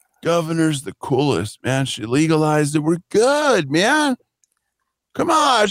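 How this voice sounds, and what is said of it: Stoner-style character voice. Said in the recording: “That's almost my best impression, by the way, of anything”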